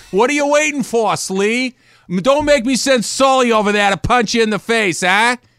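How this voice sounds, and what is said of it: Put-on Boston accent. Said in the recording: “you could do a Boston accent”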